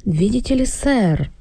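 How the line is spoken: Submissive, unnaturally flattering. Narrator (Russian): начал он покорным и неестественно льстивым голосом

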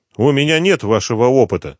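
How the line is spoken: Snapping retort. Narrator (Russian): не выдержав, огрызнулся пассажир

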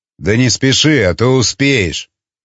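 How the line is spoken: Smirking. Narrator (Russian): хмыкнул искатель

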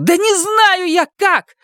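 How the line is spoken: Yelling. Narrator (Russian): заорала она

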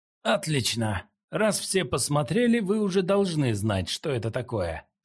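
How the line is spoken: Plain. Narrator (Russian): сказал Джо Линь

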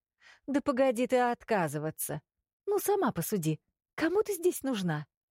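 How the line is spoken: Cheerful, brisk. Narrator (Russian): Начала Зиала бодрым голосом

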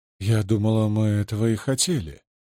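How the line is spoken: Softly. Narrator (Russian): мягко сказала Лиат

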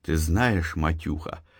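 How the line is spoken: Anxious whisper. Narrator (Russian): встревоженно зашептал Антон

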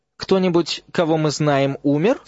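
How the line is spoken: Deliberately casual question. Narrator (Russian): спросил Рон намеренно небрежным тоном, каким он задавал вопросы Гермионе каждый раз, когда она открывала газету

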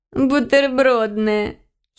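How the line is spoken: Giggle. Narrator (Russian): хихикнула ее подружка

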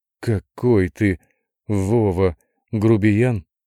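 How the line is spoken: Strained, forced words. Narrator (Russian): выдавила

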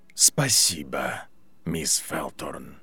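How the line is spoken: Quiet. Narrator (Russian): тихо сказал Снейп

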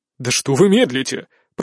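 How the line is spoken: Grumbling. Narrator (Russian): проворчал Деодор

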